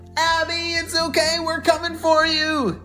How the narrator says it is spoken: shouted Ella

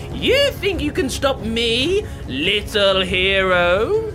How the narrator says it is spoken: taunted

